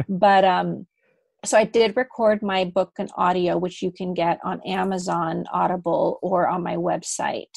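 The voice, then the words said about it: American accent. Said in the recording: “I have this nice American accent”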